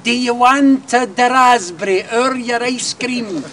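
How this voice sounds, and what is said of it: Put-on Italian accent. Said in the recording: “you knew they were fae Italy the minute they spoke ... Apologies to Antonio Carluccio for that accent.”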